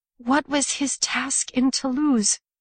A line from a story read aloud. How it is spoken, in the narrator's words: Her voice was weak, filled with disbelief